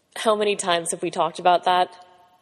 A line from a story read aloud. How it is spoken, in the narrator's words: Pete snorted